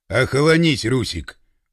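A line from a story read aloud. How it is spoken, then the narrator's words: Stern, severe. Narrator (Russian): Пашка говорил строго, если не сказать сурово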